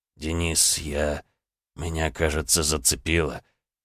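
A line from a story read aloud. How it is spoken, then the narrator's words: Dazed, faltering whisper. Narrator (Russian): Цесаревич ... слегка затуманенным взглядом, качнулся и прошептал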